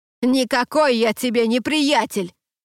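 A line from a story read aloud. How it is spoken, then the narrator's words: Shouting after someone. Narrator (Russian): прокричал Дуэйн ей вслед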